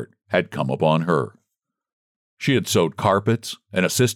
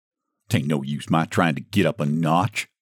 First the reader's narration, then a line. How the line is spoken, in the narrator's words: she muttered